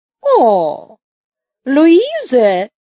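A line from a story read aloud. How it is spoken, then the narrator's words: Satisfied exclamation. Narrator (Russian): удовлетворенно воскликнул ефрейтор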